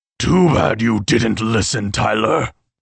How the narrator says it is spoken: the beast roared

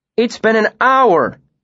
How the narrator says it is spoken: said, scowling fiercely

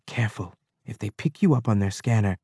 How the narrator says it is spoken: She was whispering

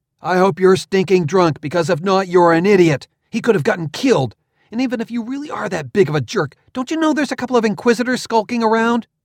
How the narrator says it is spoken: I shouted

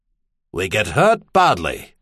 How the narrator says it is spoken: Lock Island said grimly

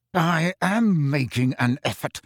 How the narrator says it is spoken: he said through clenched teeth

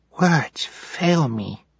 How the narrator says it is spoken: Sunny said in a hushed whisper

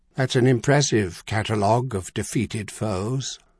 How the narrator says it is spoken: Coleman said in a somewhat milder tone

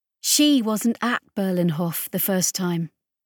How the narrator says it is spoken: Solace said quietly

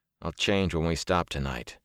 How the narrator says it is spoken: he muttered

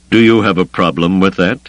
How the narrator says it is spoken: Thrawn asked coldly

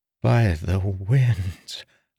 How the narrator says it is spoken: a voice finally whispered

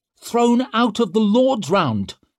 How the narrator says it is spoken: snapped Leo

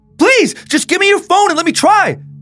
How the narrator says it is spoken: Hassan yelled

